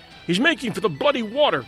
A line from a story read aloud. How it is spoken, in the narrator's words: cried the men